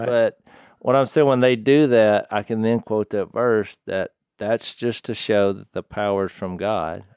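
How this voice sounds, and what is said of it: Noticeable accent. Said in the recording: “I do have an accent”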